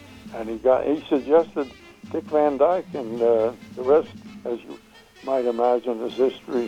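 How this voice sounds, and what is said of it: Usual voice. Nothing is said of it.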